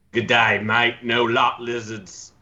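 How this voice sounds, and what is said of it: Put-on Australian accent. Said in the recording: “he'd have an Australian accent”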